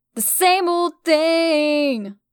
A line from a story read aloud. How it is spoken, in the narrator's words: I yelled